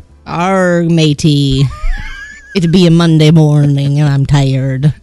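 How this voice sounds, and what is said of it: Pirate voice. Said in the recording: “Talk Like a Pirate Day. Give it to me one more time.”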